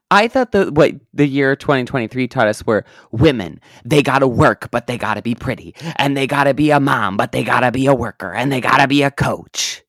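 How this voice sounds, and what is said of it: Imitates another person's voice. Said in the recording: “that your America Ferrera impression? ... That's as best as I've got.”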